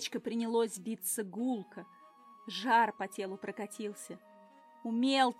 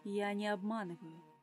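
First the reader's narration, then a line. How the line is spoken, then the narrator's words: Calm reassurance. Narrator (Russian): заверил спокойно амфибия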